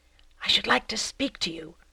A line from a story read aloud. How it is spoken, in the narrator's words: he had whispered in the clerk's ear